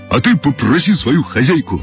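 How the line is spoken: Joyful bark. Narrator (Russian): радостно пролаял Гром

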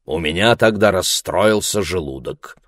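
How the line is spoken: Cold explanation. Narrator (Russian): холодно объяснил Ларри

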